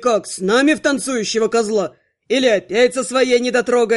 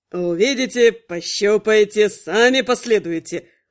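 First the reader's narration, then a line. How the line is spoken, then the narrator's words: Snorted. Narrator (Russian): фыркнул Барт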